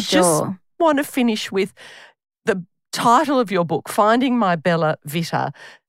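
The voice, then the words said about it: Australian accent. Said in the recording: “my terrible Aussie accent”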